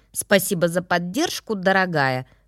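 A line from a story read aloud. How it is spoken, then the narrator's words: Through gritted teeth. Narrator (Russian): процедила я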